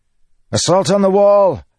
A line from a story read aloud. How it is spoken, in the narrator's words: Kaladin shouted